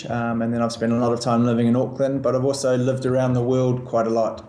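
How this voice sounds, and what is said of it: New Zealand accent. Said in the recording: “you perhaps have a, an accent more from this part of the world ... I'm from New Zealand”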